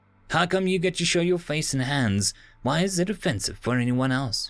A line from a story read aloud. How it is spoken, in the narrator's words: she asked